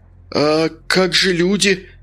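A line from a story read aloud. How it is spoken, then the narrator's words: Exclamation. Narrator (Russian): воскликнул Зиновьев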